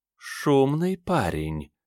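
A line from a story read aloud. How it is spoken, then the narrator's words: Sweet purr in ear. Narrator (Russian): сладко промурлыкали в ухо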